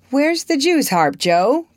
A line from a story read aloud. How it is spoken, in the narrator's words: cried Laurie, as soon as he was within speaking distance